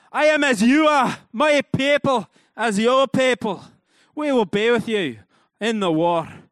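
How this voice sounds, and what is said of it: Put-on Scottish accent. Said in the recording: “it just seems like it would be in a Scottish accent.”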